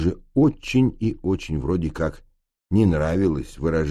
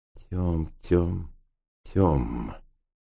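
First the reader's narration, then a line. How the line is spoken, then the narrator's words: Muttering under breath. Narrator (Russian): бормотал себе под нос Ф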